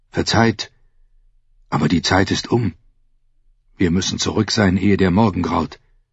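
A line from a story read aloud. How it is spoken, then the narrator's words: Soft call. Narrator (German): rief Ser Robert leise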